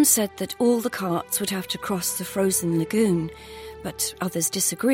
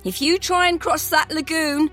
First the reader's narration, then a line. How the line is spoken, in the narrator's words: one man shouted at us mockingly